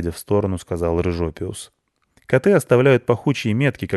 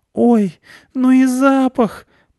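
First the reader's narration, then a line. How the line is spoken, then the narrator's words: Groaning, nose pinched. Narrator (Russian): простонала Аня, зажимая нос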